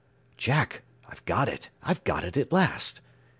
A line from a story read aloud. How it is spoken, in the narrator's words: he whispered excitedly